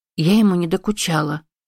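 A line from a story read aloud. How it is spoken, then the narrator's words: Mumbling. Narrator (Russian): промямлила Эми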